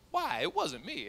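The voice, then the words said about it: Attempted Southern woman's accent. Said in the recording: “I'd like a little southern woman's accent. I don't really have that down, so pardon the, pardon the attempt.”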